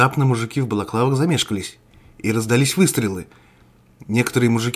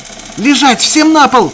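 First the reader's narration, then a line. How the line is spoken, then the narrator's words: Shouted. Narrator (Russian): крикнул Константин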